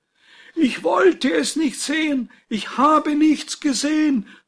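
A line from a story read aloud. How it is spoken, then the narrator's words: Groaning call. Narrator (German): ruft ächzend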